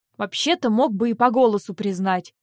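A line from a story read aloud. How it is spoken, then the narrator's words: Sighing grumble. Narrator (Russian): проворчал Винс, со вздохом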